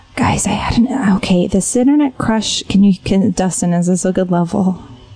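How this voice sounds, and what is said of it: Whispering. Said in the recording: “You can whisper them. ... For a whisper.”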